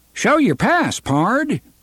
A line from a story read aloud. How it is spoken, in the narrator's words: cried the one